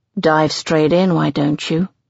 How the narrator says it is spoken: He says dryly

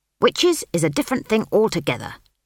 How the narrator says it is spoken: snapped Granny Weatherwax

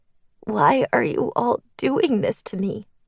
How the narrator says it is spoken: She asked again, her voice shaky and meek

